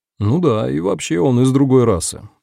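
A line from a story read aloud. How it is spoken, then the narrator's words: Tired joke. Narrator (Russian): устало пошутил Африэль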